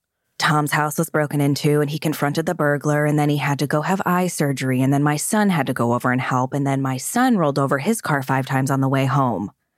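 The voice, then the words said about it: Imitates another person's voice. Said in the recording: “I'm going to do my best Erica Jane impression.”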